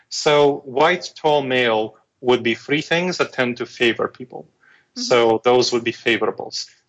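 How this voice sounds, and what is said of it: Foreign accent. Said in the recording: “I have a an accent... I have a foreign accent, weird sounding foreign accent.”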